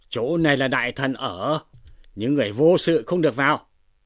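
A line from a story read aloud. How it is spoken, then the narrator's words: Stern shout. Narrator (Vietnamese): Ngô Dụng, Tống Giang liền quát lên rằng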